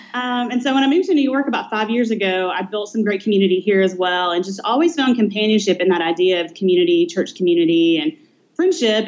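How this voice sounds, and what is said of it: Southern US Nashville accent. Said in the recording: “That's where the accent's from. ... Nashville”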